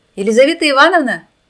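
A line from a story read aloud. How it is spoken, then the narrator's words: Shouted. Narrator (Russian): крикнула она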